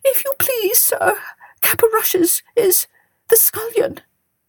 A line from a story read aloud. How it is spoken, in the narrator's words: whimpered the cook